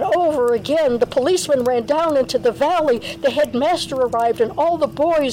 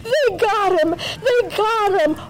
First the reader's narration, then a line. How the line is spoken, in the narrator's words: The boys screamed